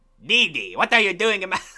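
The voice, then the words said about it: Cartoon character voice, foreign accent. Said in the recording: “a fucking Dexter voice ... He's French! He's Mario! ... He's Italian!”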